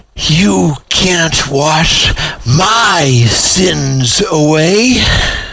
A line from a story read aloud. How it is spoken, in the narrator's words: through gritted teeth, with blazing scorn, she hissed